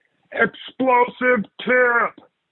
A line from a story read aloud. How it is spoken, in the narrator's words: someone shouted